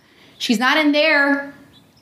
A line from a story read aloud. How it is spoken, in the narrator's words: I called out